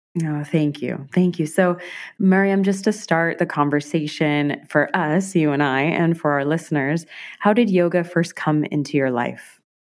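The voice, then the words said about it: Lower, sick-sounding voice. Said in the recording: “A little sick ... my voice is a little lower than normal, a little under the weather ... about a week of this cold”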